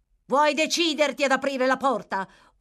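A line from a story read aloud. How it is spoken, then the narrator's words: Yelling voice. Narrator (Italian): urlò la voce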